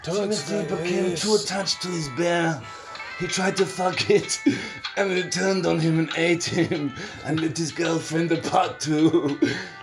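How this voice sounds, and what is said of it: Imitates another person's voice. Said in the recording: “best Werner Herzog impression”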